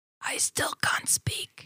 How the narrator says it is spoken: she whispers

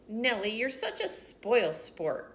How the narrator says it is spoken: grumbled Bridget

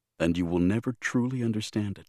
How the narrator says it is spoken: Tick added softly

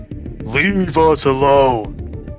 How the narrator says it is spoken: Dino is going to shout at all of them and say

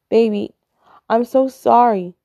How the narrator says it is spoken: cries Valentine

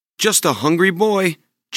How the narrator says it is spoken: Jack shouted back

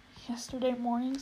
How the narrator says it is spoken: said Shasta weakly

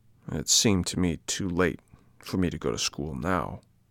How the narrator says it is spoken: moaned the puppet in a low voice

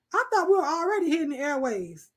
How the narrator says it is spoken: exclaimed Johnny

